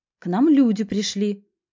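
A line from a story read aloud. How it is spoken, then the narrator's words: Stern announcement. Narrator (Russian): строго возвестила Маргарита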